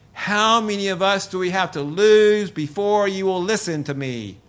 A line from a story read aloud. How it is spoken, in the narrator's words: Darcy screamed at the crowd of hedgehogs